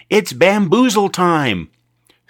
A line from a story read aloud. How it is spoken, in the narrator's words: He yelled, louder this time